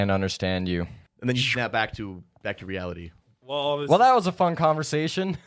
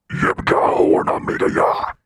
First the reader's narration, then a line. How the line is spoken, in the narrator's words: this cacophony of this booming voice, and it says